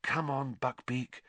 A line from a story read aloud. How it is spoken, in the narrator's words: Harry murmured